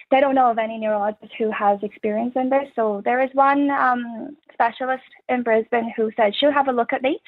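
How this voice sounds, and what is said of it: Irish accent. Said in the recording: “an Irish accent ... How do you feel about the accent? ... It's a fun accent”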